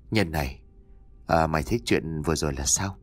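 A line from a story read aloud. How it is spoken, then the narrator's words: Weary sighing whisper. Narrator (Vietnamese): Trường thở dài ngao ngán thì thầm nói với bạn đồng hành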